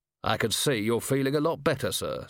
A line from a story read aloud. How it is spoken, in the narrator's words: said Vimes stiffly